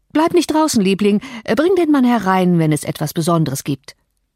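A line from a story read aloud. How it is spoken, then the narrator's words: Hasty call. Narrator (German): Hastig rief er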